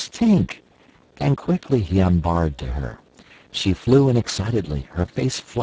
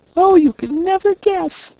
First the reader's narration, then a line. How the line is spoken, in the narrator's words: she cried